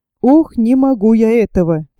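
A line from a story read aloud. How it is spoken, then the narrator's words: Sad speech. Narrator (Russian): печально проговорил Иван Алексеевич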